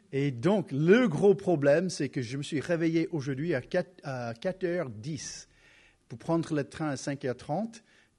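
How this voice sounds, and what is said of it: Slight American accent in French. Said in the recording (French): “je ne suis pas né en France, n'est-ce pas? J'ai un petit accent ... je commence à parler un peu plus avec un accent américain”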